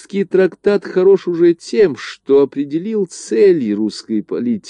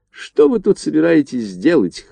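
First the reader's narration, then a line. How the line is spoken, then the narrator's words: Snort. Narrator (Russian): хмыкнул он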